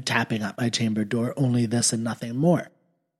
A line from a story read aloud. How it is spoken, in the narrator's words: I muttered